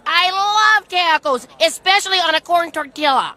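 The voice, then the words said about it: Exaggerated Minnesotan Midwestern accent. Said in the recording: “Midwestern lady, two Midwest, like, people with a Minnesotan accent”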